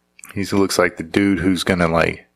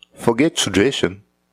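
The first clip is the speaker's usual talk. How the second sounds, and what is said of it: Poor attempt at English accent. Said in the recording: “Let's see if I can do an English accent. ... No, that's terrible. ... No, that's Australian.”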